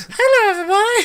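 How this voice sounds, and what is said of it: High-pitched voice imitation. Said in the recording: “He's got like a real high pitched voice... Not that high, but you're kind of close.”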